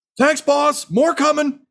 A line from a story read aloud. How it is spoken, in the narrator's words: Crendan from the back just yells